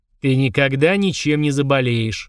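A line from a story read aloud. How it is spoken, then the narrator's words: Bored voice. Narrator (Russian): скучным голосом пообещал Фрундорог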